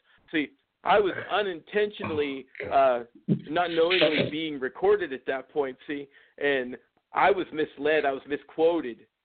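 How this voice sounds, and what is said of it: Imitates another person's voice. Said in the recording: “my imitation now of a professional athlete that just got busted taking roids ... It's Roger Clemens on the other side of the line right here”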